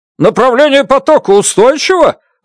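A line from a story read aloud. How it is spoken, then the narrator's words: Shouted question. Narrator (Russian): выкрикнул доктор Браун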